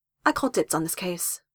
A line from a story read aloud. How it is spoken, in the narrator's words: said Jess